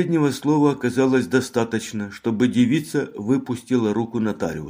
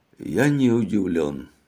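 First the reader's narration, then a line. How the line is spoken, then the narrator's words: Weary mutter. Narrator (Russian): пробормотал Мегре, начиная ощущать тяжесть в голове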